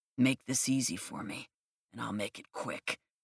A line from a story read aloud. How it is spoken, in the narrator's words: he said in a deep voice